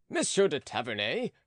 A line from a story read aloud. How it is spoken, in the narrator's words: cried Charny